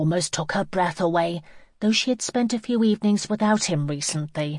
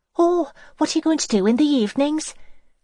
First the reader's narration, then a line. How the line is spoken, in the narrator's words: Irene asked breathlessly